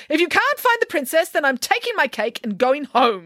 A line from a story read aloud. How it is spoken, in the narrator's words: yelled Nanny Piggins